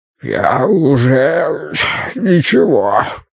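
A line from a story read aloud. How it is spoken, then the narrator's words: Hoarse rasp. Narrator (Russian): прохрипел Бидвилл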